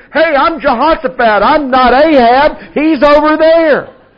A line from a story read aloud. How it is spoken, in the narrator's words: he starts screaming